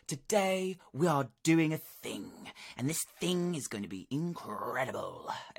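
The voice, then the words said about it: Dramatic narrator voice with peaks and valleys. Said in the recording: “her narrator voice ... It's incredible ... she just gives it such peaks and valleys”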